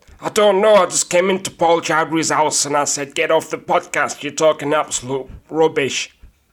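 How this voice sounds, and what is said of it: Johnny Vegas impression. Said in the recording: “do an impression. ... Johnny Vegas, what are you doing here?”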